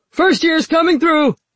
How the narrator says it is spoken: Rabban yelled

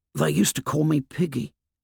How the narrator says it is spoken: He whispered

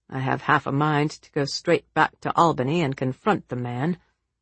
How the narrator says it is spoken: said Alex grimly

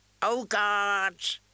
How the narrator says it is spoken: an old woman wailed

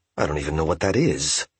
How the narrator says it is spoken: Yamada muttered

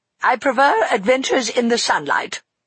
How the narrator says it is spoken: replied Eleanor curtly

